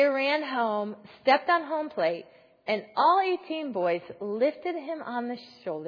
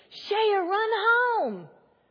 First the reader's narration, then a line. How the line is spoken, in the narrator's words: screamed